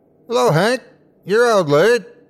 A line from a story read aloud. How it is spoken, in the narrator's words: A figure standing in the yard yelled